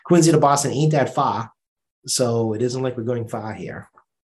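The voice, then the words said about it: Strong Boston accent. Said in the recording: “there goes the full Boston accent ... I actually do control my R's when I talk to folks”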